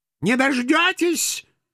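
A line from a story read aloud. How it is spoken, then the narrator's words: Shrill frail old woman. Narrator (Russian): визгливо откликнулась едва стоящая на ногах скрюченно скособоченная старушонка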